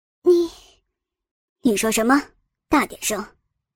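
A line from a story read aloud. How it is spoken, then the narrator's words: Weak, low voice. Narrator (Chinese): 林贤惠……无力的低声道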